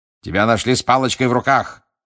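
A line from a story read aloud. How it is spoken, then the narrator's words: Menacing bark. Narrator (Russian): рявкнул мистер Диггери, угрожающе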